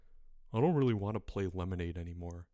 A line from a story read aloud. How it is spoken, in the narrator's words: Albert mumbled